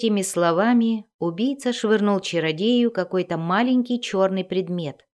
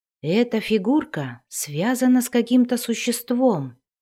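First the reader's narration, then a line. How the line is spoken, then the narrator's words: Breathed out, sorcerer. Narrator (Russian): выдохнул чародей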